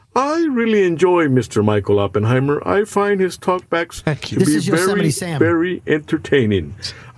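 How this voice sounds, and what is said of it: Cartoon character-style put-on voice. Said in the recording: “That's Yosemite Sam. He has the same accent... He's got the same exact accent and inflection... that's his other voice. Now he's doing a second voice.”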